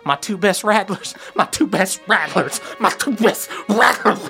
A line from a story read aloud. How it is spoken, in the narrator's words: his mouth is foaming, and he's muttering to himself